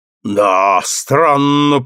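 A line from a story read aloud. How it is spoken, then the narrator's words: Booming stout man. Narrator (Russian): прогудел тучный помощник коменданта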